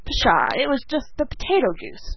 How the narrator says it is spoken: scoffed Dan

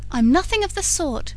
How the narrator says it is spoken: threw back Laura indignantly

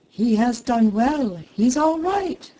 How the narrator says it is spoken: the model, laughing, cried

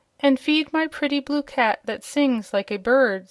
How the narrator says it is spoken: said Princess Azure

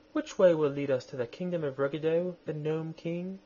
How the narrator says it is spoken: she said in her sweet, gentle voice

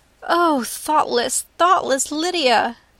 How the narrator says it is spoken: cried Elizabeth

